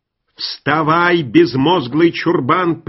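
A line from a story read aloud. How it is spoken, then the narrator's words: Roaring. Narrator (Russian): проревел Гаррис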